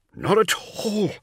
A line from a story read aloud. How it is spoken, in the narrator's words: wheezed, as they began their fifth lap